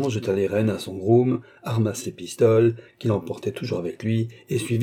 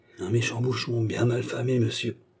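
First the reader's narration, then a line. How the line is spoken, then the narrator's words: Quiet answer. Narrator (French): répondit tout bas Guignon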